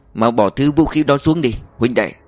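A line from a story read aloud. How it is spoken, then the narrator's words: Cold command. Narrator (Vietnamese): Địch Tông lạnh lùng bảo gã cầm rìu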